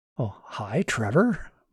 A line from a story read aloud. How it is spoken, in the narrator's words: Martin whispered